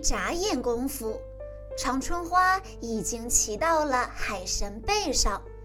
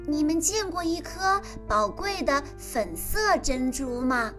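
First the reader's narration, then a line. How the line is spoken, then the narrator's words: Plain. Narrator (Chinese): 海胆回答道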